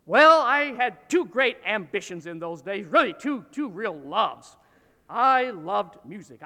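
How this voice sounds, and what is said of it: Northern US Midwestern accent. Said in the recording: “my little hometown of Dixon, Illinois, hence my northern accent.”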